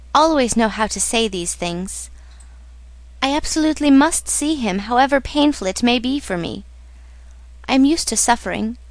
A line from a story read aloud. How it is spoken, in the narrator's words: she smiled tenderly